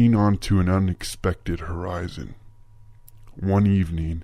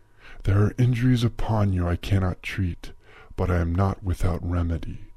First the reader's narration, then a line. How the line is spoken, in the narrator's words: spoke softly